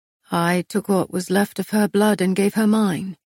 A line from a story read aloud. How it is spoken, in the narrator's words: Castile said